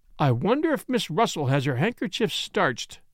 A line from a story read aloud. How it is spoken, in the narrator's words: I exclaimed on the spur of the moment